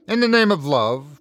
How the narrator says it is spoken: my grandfather pleaded

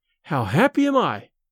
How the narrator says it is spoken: cried he

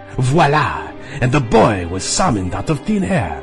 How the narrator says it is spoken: he said, waving his hand dramatically

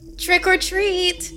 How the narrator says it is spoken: the grim gouger said in a high and enthusiastic voice

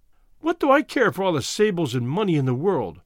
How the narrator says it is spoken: she cried

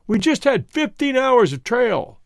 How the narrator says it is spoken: he shouted above the wind, tentatively

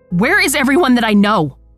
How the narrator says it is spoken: I scream

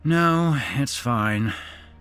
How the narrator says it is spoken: Matt sighed

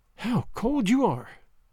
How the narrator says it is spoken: she sighed

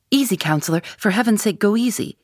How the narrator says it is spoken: cried

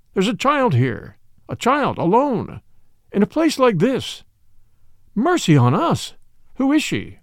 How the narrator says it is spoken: he cried out

